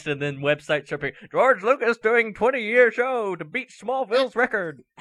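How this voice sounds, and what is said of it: Old-time World War II announcer voice. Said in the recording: “I just became a World War II era announcer”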